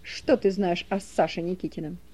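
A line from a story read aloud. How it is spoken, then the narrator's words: Sharp question. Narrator (Russian): Соки резко спросил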